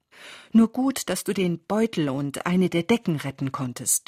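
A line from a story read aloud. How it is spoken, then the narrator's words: Stammering. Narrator (German): stammelte Philipp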